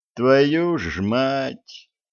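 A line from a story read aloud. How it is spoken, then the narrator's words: Inward groan. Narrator (Russian): мысленно простонал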